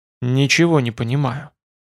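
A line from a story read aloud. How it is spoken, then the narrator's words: Quiet mutter. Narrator (Russian): тихо пробормотал Арольд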